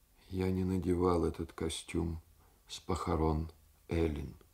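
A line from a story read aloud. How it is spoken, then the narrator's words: Quiet. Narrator (Russian): сказал тихо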